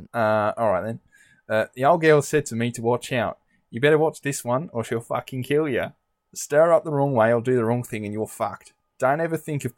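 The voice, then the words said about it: Put-on Australian accent. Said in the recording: “do the quote again, but do it in an Australian accent.”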